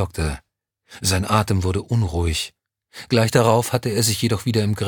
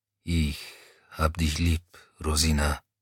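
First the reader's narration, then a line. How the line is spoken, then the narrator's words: Low mumble under machine noise. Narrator (German): brummte er leise genug, dass es im Dröhnen der Maschine nicht hören konnte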